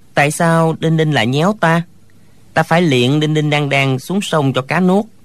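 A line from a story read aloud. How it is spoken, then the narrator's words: Playful childish smiling. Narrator (Vietnamese): Thạch Phá Thiên lại nổi lòng trẻ con, mỉm cười nói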